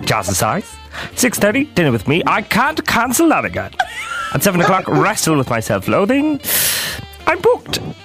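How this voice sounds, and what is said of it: Grinch impression drifting into Mr. Bean. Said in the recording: “I've lost it halfway through. I kind of sound like Mr. Bean ... When can we hear from the Grinch again?”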